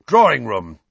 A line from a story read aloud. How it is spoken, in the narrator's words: he growled